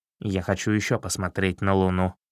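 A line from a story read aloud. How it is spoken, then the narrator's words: Stubborn mutter. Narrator (Russian): упрямо пробормотал Чернохвост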